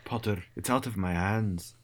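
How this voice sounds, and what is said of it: Put-on British accent as McGonagall. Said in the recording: “I like that accent.”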